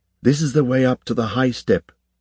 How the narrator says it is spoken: she said

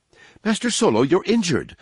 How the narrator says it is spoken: C-3PO exclaimed, on seeing dried blood on his hands and face

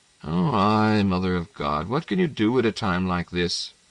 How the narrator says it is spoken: One sighed, one laughed

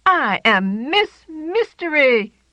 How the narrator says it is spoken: Jane shouted

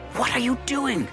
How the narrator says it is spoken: Liviani hissed

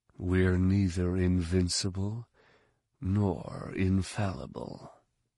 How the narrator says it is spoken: said softly

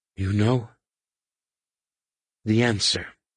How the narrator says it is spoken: gasped

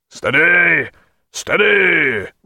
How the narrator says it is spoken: roared Jack

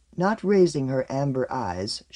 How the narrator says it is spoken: she said very softly

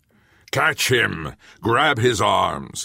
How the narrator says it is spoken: roared

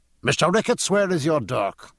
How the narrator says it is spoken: said James Dillon sharply

